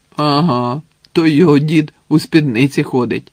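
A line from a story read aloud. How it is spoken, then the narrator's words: Laughing. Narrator (Ukrainian): засміявся один з козаків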